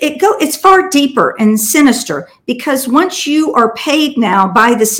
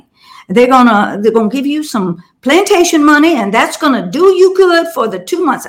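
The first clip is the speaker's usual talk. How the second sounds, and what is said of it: Put-on deep Southern accent. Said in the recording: “That's my deep, deep Southern accent”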